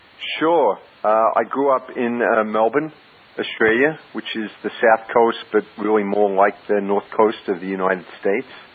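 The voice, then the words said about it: Australian accent. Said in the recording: “you said you're Australian, but and I know you've got the accent as well”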